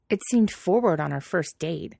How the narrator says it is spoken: Pidge snapped, still pissed

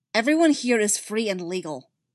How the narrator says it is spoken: Barrow snaps

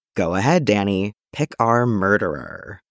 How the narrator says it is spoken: Dick says in a spooky voice

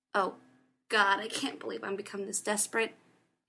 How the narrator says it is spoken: he snapped

